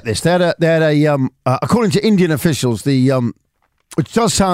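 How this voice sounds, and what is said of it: Usual voice. Nothing is said of it.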